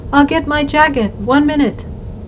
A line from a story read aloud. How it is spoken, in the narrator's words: Koo called out